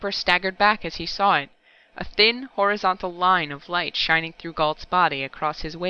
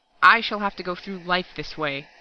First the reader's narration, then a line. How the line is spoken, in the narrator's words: Galt snarled